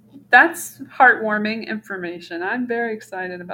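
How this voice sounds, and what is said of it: Usual voice. Nothing is said of it.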